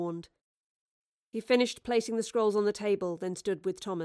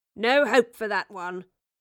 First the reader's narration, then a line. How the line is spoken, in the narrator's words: sneered Charles